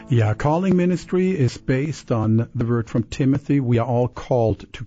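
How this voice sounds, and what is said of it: Slight German-influenced accent. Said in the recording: “I bet people hear a little accent ... I can't hide it. I was born in Germany. I was raised in Canada, and I'm American, so a lot of uh, accents there.”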